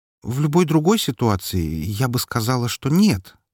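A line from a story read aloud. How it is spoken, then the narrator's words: Uncertain reply. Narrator (Russian): неуверенно ответила она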